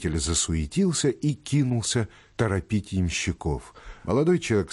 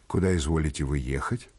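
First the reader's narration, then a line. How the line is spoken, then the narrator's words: Plain. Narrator (Russian): спросил он его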